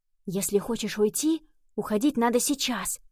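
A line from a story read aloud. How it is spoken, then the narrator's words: Whisper. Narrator (Russian): прошептал он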